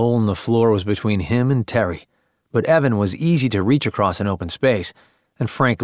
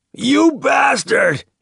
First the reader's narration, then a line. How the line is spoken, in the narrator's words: he screamed